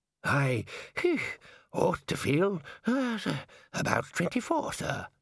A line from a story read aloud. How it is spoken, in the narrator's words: Ponder groaned